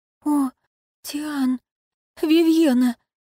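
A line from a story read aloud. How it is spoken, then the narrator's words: Confused mutter. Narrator (Russian): растерянно пробормотала Ароника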